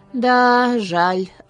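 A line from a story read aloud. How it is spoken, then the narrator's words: Sigh. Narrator (Russian): вздохнул лесничий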